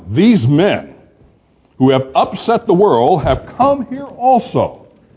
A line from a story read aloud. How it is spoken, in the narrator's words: they were shouting